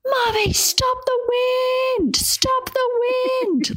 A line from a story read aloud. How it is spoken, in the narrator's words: like just yelling